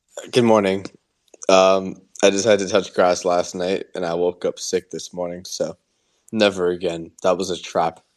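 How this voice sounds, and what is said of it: Nasal, congested voice. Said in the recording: “you sound a little nasally”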